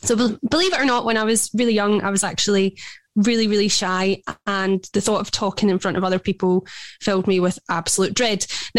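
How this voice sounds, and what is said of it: Scottish accent. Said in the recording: “you are from... Scotland. ... Gorgeous, gorgeous accent.”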